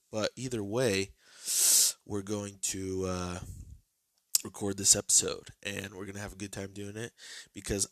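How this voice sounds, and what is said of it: Congested, sick-sounding voice. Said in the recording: “I sound like this and I have phlegm and mucus coming out of most of the holes in my body ... I sound a little different”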